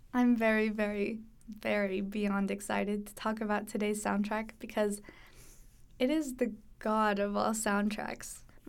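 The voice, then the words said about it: Hoarse, fading voice. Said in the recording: “I'm kind of losing my voice a little bit already”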